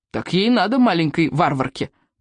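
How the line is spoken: Grumbling soldier. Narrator (Russian): проворчал солдат

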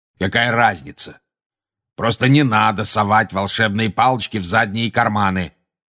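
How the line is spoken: Menacing growl. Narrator (Russian): прорычал грозный глаз

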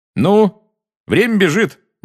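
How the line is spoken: Cheerful brisk. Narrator (Russian): бодро сказал Фред

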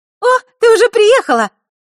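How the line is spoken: Delighted exclamation. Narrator (Russian): обрадованно воскликнула она

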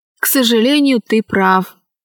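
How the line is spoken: Plain, dolphin. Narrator (Russian): сказал второй дельфин

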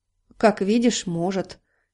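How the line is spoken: Gloomy objection. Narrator (Russian): мрачно возразил Дональд

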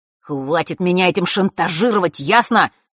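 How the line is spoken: Angry hiss. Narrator (Russian): разозленно прошипел

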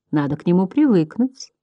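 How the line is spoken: Tender soothing. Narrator (Russian): нежно успокаивала Ксаида

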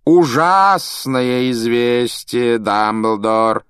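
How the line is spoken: Theatrical drawl. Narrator (Russian): театральным голосом протянул Малфой

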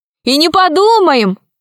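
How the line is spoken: Joyful shout. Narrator (Russian): радостно закричала Алиса

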